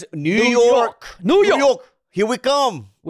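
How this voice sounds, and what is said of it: Put-on New York accent. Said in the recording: “such a good New York accent.”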